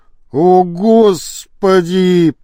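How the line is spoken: Groaning. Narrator (Russian): простонал Кокшаров

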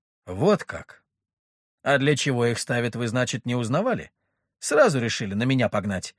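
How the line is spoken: Snorting. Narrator (Russian): хмыкнул я

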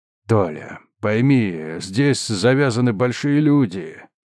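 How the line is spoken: Tired. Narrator (Russian): устало сказал Трофимов

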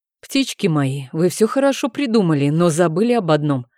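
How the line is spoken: Grumbled with mouth full. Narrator (Russian): пробурчал мэтр Дидье, засовывая в рот очередной кусок сочной говядины

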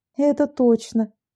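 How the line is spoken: Tired sigh. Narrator (Russian): Анна устало вздохнула и добавила

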